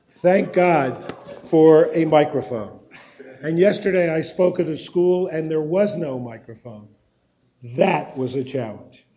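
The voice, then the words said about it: Hoarse voice from laryngitis. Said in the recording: “laryngitis ... it's hard to make sound”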